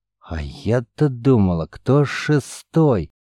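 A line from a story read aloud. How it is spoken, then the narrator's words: Barely audible woman warrior. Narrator (Russian): еле слышно произнесла женщина-воин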